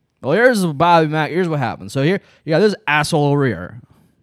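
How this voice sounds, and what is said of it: Mock drunken voice. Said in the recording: “my drunken impression”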